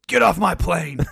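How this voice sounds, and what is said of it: Imitates another person's voice. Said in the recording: “I don't do a good Denzel ... That's not good at Denzel”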